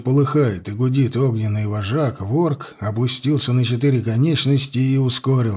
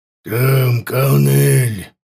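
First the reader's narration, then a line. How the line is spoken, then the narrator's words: Growled. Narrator (Russian): прорычал ворк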